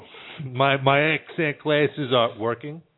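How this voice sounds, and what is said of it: Imitation of a co-host's voice. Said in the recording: “You sound like a new person. ... You sound like Rob. ... That's my Rob accent.”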